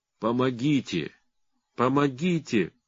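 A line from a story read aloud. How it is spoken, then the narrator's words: Ruler moaning. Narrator (Russian): простонал государь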